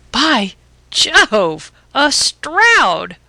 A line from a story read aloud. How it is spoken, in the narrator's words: I cried